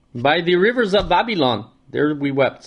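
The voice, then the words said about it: Deliberately bad Rasta accent. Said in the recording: “Very bad Rasta accent.”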